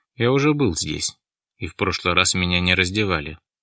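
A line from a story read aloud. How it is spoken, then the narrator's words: Calm reminder. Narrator (Russian): спокойно напомнил Дронго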